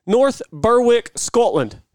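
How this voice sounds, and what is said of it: Bad put-on Scottish accent. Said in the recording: “You got to work on that accent. ... Yeah, it's bad. It's really bad.”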